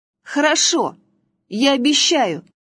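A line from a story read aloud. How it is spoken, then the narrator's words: Exclamation. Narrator (Russian): воскликнул Василек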